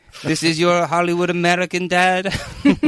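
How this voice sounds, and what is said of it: Put-on French accent. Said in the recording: “That's my French accent ... It's perfect. Yeah. It was perfect.”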